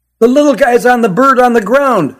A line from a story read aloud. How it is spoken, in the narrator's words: shouted the boy in the red baseball cap